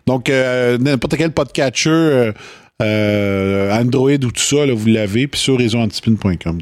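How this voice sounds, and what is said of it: Quebec French joual accent. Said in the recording (French): “même si on a un accent joual”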